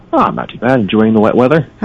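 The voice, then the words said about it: Mildly sarcastic tone. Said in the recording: “Are you being sarcastic? ... A little bit.”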